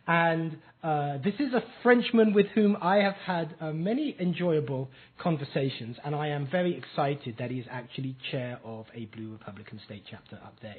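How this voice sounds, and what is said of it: English accent. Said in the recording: “I, with my strange accent and speech impediment, am English”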